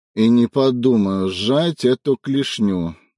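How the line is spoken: Grumbling. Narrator (Russian): наконец проворчал он

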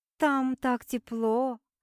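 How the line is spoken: Purring. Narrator (Russian): промурлыкала Ангелина

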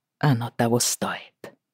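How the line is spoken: Quiet. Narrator (Russian): тихо сказал Джейми

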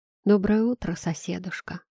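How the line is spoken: Plain. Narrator (Russian): ответила я

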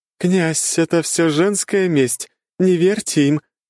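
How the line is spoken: Laughing. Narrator (Russian): хохотала Альфа

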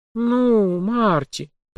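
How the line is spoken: Drawn out. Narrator (Russian): протянула журналистка

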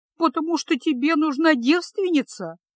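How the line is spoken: Tearful sob. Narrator (Russian): всхлипнула она

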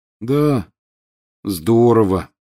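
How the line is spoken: Glum. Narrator (Russian): уныло подтвердил Рон

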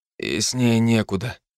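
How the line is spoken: Exhaled. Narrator (Russian): выдохнул я

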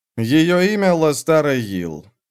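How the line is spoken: Dejected, yearning tone. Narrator (Russian): сказал он невыразимо унылым, почти тоскующим тоном

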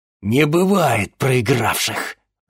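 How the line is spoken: Angry grumble while walking. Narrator (Russian): злобно проворчал он на ходу

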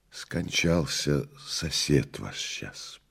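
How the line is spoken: Compelled, kindly whisper. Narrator (Russian): прошептала Прасковья Федоровна, не будучи в силах преодолеть свою правдивость и доброту

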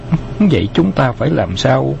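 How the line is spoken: Frightened. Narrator (Vietnamese): Tố Tố sợ hãi nói

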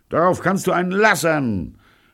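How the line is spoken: Shouting back. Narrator (German): schrie Pirolo zurück

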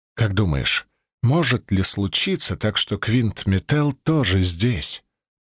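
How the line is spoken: Whisper in ear. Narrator (Russian): прошептал он мне на ухо

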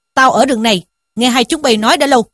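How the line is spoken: Shouted. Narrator (Vietnamese): một vị hòa thượng quát rằng

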